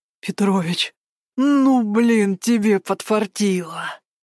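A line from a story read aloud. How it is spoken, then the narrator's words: Delighted drawl. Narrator (Russian): Протянул он, восторженно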